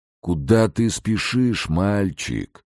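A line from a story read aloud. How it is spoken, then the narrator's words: Sad question. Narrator (Russian): печально спросил Энлиль Маратович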